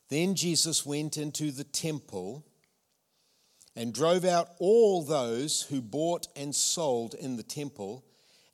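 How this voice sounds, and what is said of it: New Zealand (Tauranga) accent. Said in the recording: “my Tauranga accent”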